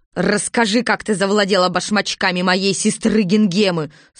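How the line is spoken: Stern shout. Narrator (Russian): сурово крикнула Бастинда

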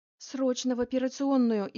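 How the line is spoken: Frantic panicked scream. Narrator (Russian): истошным голосом завопила Лилия Федоровна, поняв, что дыхание у девушки исчезло

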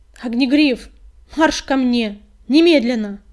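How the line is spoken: Barked command. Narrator (Russian): рявкнула синяя звезда

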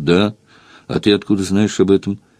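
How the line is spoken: Timid, evasive answer with sniffing. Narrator (Russian): подышал, посопел робко, уклончиво ответил

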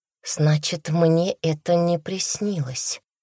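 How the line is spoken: Through gritted teeth. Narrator (Russian): произнесла сквозь зубы

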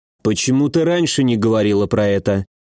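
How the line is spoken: Gloomy question. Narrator (Russian): мрачно спросил я

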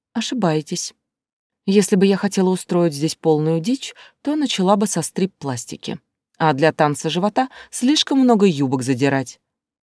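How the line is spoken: Calm reply. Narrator (Russian): спокойно ответила

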